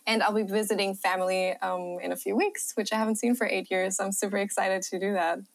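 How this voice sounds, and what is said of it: German accent. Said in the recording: “your accent ... my German accent ... Your accent is beautiful”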